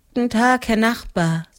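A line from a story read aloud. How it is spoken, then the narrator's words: Tired. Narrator (German): sagte sie müde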